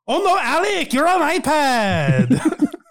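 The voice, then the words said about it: Put-on Irish accent. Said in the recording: “You're Irish... I guess I did do her accent, kind of... Yes, you did.”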